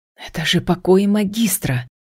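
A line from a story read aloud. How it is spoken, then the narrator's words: Hiss. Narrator (Russian): прошипела я Итану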